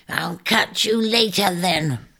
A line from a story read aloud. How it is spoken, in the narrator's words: the shrike croaked after him, blistering at being foiled again